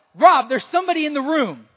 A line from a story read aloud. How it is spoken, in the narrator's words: She yelled out